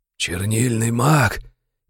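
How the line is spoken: Hoarse, parched voice. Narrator (Russian): произнес сиплым, давно пересохшим горлом

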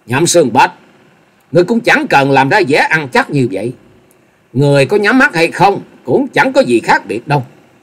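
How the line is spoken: Loud mocking laughter. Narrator (Vietnamese): Dịch Hương Trúc cười lớn, giọng đầy mỉa mai nói

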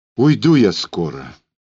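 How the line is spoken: Sighing. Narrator (Russian): вздохнув

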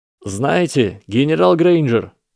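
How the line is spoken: Loud statement. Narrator (Russian): громко произнес Гарри

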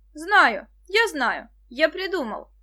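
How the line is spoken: Sudden excited shout. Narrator (Russian): закричал вдруг Денис

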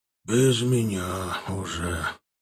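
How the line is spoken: Barely audible whisper. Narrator (Russian): прошептал тот еле слышно

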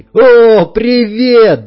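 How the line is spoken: Joyful yell. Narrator (Russian): заорал Вадим

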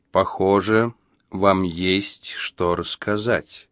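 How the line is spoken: Slow, measured. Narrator (Russian): медленно произнес Джо за беду

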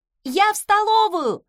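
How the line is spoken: Distant shout. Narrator (Russian): крикнула из коридора

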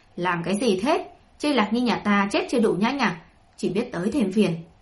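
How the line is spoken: Old woman's angry shout. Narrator (Vietnamese): Huyết bà bà đầy tức giận quát lớn

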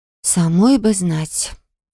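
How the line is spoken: Quiet reply. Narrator (Russian): тихо ответила я

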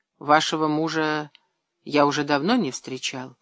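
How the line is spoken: Quiet. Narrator (Russian): тихо проговорил Казаков

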